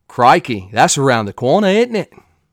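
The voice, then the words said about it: Put-on Australian accent. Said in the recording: “I don't know if that's a good or bad Australian accent”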